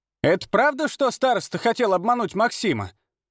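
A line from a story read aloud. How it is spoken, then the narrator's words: Woman's loud question. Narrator (Russian): громко спросила одна из женщин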